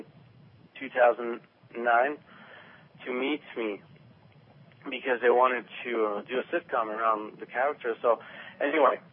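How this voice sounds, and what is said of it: Strong accent. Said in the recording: “my accent was too strong ... even with your accent”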